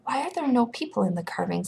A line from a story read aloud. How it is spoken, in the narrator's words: he whispered